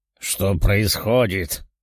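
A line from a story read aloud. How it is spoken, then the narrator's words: Eerie monstrous voice. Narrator (Russian): произнес монстр жутким чудовищным голосом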